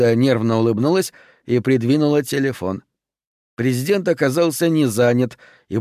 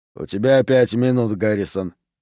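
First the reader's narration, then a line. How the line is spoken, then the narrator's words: Grumbling. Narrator (Russian): проворчал Блисс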